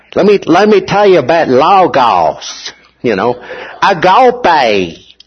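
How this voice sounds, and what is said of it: Put-on Texas accent. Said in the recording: “you're learning Greek with a Texas accent.”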